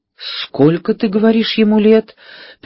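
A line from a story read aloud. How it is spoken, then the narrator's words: Trembling voice, questioning. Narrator (Russian): переспросил дрогнувшим голосом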